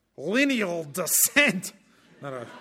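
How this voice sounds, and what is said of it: Put-on Scottish accent. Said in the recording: “I'll try and get the Scottish accent.”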